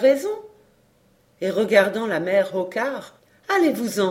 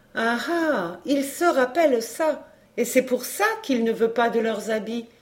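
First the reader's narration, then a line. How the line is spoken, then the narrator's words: Woman exclaiming. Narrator (French): s'écria la brave femme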